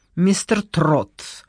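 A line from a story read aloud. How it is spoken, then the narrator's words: Irritated. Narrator (Russian): раздраженно сказала Вероника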